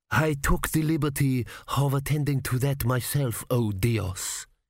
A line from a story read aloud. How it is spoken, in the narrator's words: purred